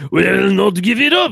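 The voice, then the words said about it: Haughty French accent. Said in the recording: “you have to say that in a haughty French accent”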